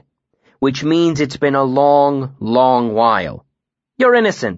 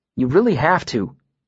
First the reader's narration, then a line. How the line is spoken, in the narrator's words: Sim said earnestly